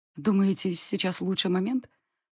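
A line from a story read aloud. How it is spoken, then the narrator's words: Hoarse, muffled. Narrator (Russian): Сипло уточнила я, выплюнув изо рта ткань одеяла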